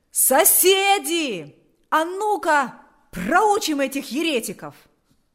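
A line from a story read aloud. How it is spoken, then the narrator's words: Shouted. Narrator (Russian): Кто-то закричал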